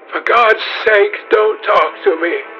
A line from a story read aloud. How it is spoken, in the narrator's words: cried Dorian